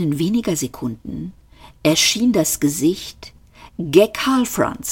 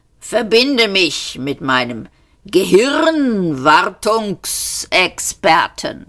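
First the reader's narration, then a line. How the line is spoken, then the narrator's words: Croaking. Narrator (German): krächzte er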